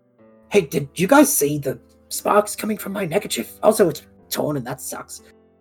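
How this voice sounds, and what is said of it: Character voice dropping his usual accent. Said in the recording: “Halloway is gonna try and talk without his accent again”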